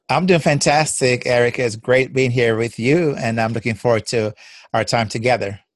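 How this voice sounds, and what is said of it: Jamaican accent. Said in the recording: “he has kind of a fun accent ... my beautiful accent is Jamaican”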